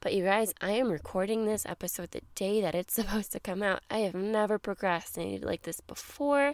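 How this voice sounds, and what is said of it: Congested voice. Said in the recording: “I still am a little congested. So I'm sorry about my voice,”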